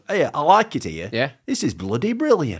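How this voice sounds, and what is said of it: Broad Yorkshire accent. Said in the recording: “a really broad Yorkshire accent”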